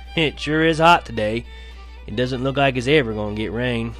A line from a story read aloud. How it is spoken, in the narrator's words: Yawning and stretching his arms, he said